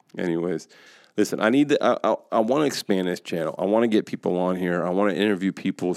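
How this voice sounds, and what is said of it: Tired, sleepy-sounding voice. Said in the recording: “I'm tired today. I have been zero sleep. ... You could probably hear it in my voice.”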